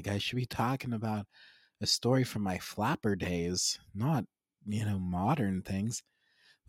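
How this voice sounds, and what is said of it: Raspy smoker-like voice. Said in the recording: “I sound like a smoker. Oh my goodness. Like you know, like those like 74-year-old grandmas who smoke.”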